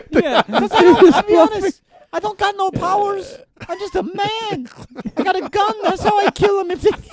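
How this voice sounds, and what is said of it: High-pitched character voice. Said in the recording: “A man with a gun with a high voice.”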